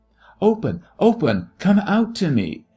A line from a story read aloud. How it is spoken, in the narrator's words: he tried to shout